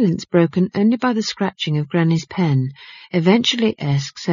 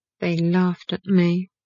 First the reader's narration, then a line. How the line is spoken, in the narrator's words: Esk mumbled